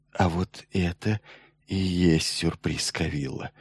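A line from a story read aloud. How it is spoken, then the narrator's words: Whisper. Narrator (Russian): наконец прошептал Майлз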